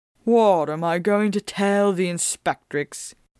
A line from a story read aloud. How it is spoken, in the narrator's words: Cullens groaned